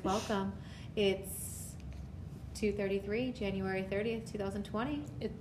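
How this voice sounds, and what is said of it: Announcer-style radio voice. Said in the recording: “This is my radio voice.”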